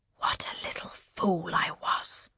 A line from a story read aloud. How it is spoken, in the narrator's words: the Duchess whispers